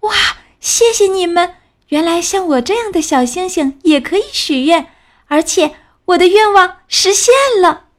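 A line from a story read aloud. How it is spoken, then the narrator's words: Happy shout. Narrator (Chinese): 他开心的大叫起来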